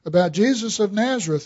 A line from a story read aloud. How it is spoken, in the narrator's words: replied